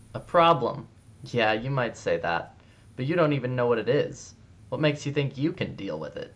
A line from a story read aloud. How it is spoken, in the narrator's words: Ty laughed